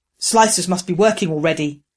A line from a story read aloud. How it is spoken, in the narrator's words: Growler said through the link